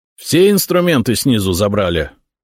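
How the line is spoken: Stern question. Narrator (Russian): строго спросил Ильич рабочих

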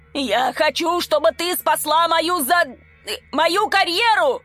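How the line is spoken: Yelling. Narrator (Russian): заорал Сидорчук

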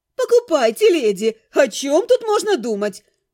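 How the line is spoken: Exclaiming. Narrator (Russian): воскликнула она

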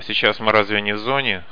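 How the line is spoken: Snorting. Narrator (Russian): хмыкнул Каша

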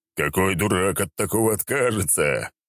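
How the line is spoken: Laughing. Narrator (Russian): Я рассмеялся

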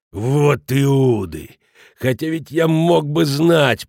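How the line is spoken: Growled. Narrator (Russian): прорычал Шмидт

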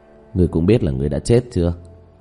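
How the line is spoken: Sighing. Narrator (Vietnamese): Diệp Thiếu Dương thở dài

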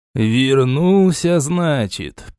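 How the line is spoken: Half-questioning drawl. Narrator (Russian): полувопросительно протянул лохут

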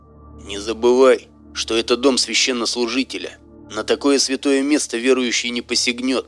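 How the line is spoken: Whispered explanation. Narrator (Russian): пояснил шепотом тот

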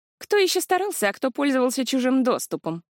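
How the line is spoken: Scornful snort. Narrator (Russian): фыркнула кузина

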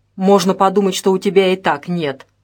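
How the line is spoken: Snorting. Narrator (Russian): хмыкнул Неустроев

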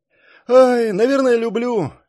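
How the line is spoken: Sighing again. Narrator (Russian): опять вздохнул Саш

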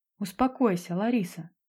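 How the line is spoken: Soft gentle advice. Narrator (Russian): мягко посоветовала ей Линда

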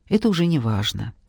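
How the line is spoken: Soft, gentle. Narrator (Russian): мягко произнес

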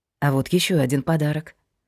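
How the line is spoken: Quiet. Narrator (Russian): сказал тихо

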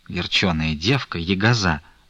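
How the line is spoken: Grumbling. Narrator (Russian): заворчала Манефа

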